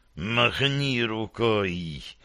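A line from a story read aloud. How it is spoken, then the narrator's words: Hissing. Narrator (Russian): прошипел Назгул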